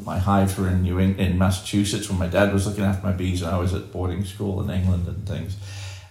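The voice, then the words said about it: British-influenced accent. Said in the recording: “you may tell from my accent, I spent some time overseas in Britain”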